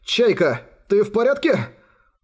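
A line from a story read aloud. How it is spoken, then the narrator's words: Exclaimed. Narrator (Russian): Воскликнул Тору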